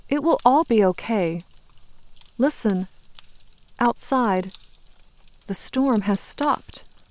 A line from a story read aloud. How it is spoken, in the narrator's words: Hope says in a calm, clear voice